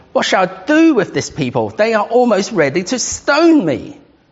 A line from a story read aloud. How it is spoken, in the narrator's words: Moses cried to the Lord